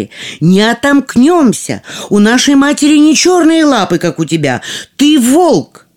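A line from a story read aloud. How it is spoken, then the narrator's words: Children shouting. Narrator (Russian): дети закричали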